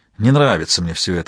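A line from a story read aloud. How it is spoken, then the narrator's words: Sigh. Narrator (Russian): вздохнул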